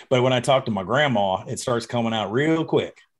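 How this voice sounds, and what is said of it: Bad fake Southern accent. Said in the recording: “That sounded like a fake Southern accent. ... That sounded terrible.”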